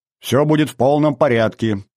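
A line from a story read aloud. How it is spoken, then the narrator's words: Cheerful, brisk. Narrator (Russian): бодро сказал я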